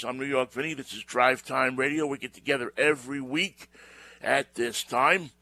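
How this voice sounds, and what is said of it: New York accent. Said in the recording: “a guy with a New York accent”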